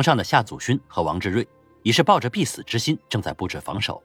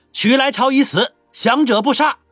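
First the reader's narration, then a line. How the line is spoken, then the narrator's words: Loud roaring shout. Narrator (Chinese): 曹变脚高声吼道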